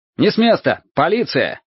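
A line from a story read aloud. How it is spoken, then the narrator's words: Shout. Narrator (Russian): крикнул он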